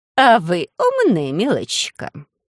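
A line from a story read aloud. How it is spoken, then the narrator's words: Thoughtful drawl. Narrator (Russian): задумчиво протянула мисс Джиллиан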